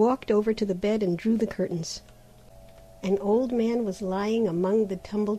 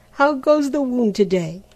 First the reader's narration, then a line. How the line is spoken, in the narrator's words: he cried cheerily